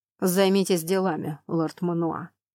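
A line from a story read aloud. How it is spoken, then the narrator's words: Level voice, suppressed rage. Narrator (Russian): Тейрон Флемур говорил ровным голосом, хотя внутри бушевал огненный шторм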